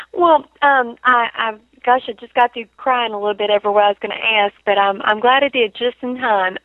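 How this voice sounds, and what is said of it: Thick regional accent. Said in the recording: “she has an awful thick accent”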